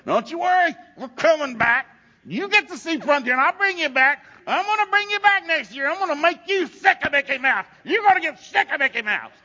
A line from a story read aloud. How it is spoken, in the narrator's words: I'm screaming in her face